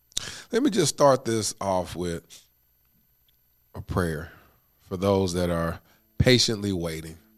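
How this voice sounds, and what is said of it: Stuffy, congested voice. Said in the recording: “why I sound a little stuffy, a little snotty”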